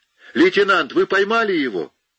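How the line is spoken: Shout. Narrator (Russian): Он крикнул

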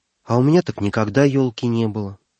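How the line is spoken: Sudden sad. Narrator (Russian): вдруг грустно проговорил

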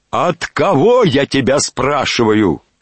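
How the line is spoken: Wild shout. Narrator (Russian): крикнул Иван Александрович таким диким голосом

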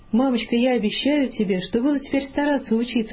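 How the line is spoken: Plain. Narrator (Russian): сказал он

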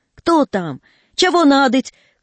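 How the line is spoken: Straining weak voice, shouting. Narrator (Russian): кричал между тем Федоточ, напрягая слабый голос

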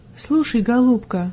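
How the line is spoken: Tender woman. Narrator (Russian): ласково продолжала женщина

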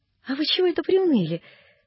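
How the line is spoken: Cheerful question. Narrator (Russian): спрашивал дядин приказчик весело

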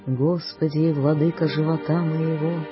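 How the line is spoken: Sighing voice. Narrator (Russian): начинает воздыхающим голосом

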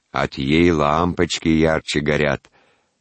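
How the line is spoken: Deep bass woman's voice. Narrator (Russian): басом вставляла прачка Мария

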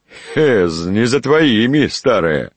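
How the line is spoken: Laughing. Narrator (Russian): засмеялся мельник

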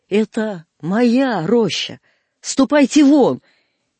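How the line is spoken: Possessive shout. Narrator (Russian): я крикнул на него тоном собственника

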